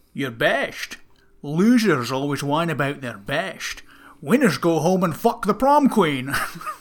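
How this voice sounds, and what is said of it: Imitates another person's voice. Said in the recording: “you do this accent pretty good ... That's said by Sean Connery.”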